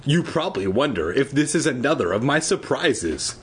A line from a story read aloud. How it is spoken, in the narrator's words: she said with a little laugh